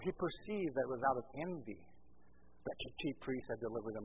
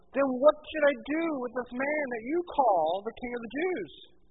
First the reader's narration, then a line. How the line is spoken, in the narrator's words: they cried out again